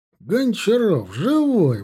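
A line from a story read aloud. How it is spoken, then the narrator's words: Joyful exclamation. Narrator (Russian): воскликнул обрадованно Копорский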